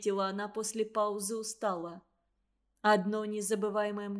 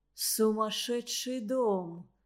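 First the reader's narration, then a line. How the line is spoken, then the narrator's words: Groaning. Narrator (Russian): простонал Дмитрий Алексеевич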